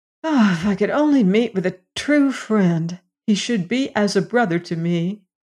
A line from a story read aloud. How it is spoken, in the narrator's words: sighed sadly